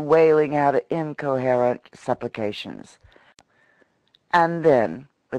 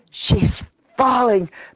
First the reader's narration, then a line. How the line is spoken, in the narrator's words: panted Freckles